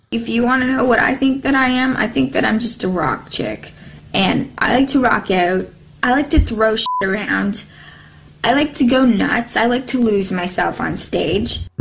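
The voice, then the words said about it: Canadian accent. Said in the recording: “a great example of a Canadian accent”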